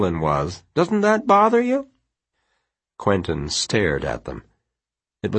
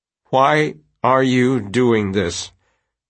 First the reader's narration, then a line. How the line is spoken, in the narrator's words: Quentin asked, slowly, carefully